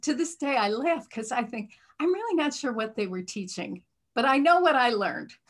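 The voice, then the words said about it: American Midwestern accent. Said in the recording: “you can tell by my accent, right? I'm from the Midwest”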